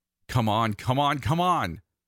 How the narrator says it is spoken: yell

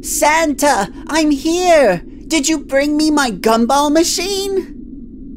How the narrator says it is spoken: yelled out in a cheery voice

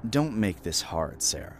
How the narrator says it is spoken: he said, his voice cold

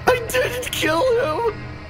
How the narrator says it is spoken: he screamed, his eyes wild with desperation

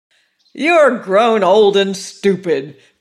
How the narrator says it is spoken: cried the lady in her loud tones

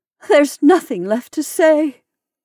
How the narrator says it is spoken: she added with a tragic laugh

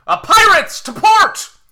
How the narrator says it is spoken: Captain Ool rushes forward and out of view, but you hear him shout

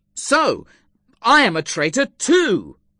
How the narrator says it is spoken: I exclaimed angrily

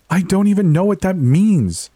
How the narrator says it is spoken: Chloe shouted back

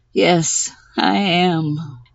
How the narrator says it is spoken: She hung her head wearily and said

